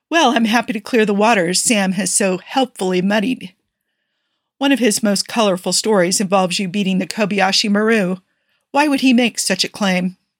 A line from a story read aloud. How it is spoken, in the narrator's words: groaned